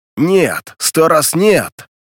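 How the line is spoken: Thunderous shout. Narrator (Russian): Крикнул он громовым голосом

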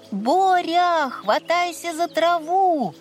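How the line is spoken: Friends shouting. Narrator (Russian): Друзья кричали ему

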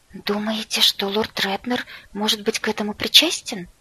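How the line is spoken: Frightened gasp. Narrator (Russian): испуганно охнула я

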